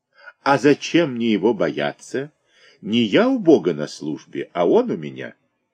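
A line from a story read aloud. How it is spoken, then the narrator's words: Polite laugh. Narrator (Russian): Лист Войп вежливо засмеялся и сказал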